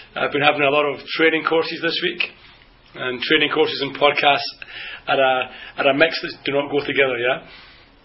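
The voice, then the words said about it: Slightly hoarse voice. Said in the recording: “having a little bit of a hoarse throat”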